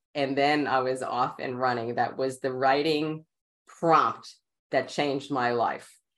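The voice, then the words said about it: Queens New York accent. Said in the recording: “my Queen's accent”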